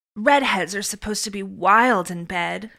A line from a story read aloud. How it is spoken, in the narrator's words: Luna said with a sigh